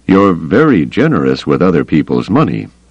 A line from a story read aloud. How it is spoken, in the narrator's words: Carda said dryly